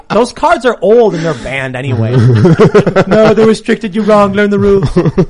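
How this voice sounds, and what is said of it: Imitates another person's voice. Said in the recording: “That's not actually a Trump impersonation. That's me impersonating Seamus impersonating ... Trump.”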